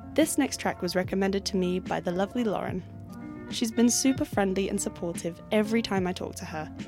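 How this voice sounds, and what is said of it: Very English accent. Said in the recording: “my very English accent.”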